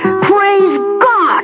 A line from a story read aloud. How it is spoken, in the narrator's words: he yelled